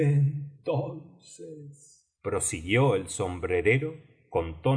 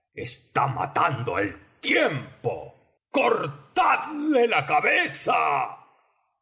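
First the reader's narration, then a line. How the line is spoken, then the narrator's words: Queen bellowing. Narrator (Spanish): vociferó la reina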